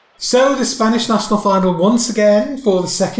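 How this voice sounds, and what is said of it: Usual voice. Nothing is said of it.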